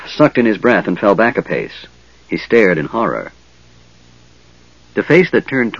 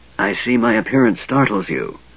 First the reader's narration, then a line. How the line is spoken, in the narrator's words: Raistlin whispered